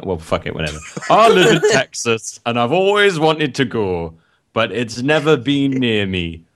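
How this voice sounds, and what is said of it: Vague put-on Irish or Welsh accent. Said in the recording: “John the Irishman in Texas. ... It was Welsh. That was more Welsh. ... That was not Irishman. That was like a weird, like, that was not even, that was not Welsh. That was not Irish. ... That's just a voice.”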